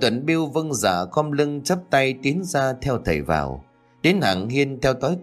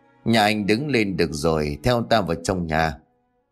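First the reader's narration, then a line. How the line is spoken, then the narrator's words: Laughing, old man. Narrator (Vietnamese): ông cụ Sáu cười lớn rồi bảo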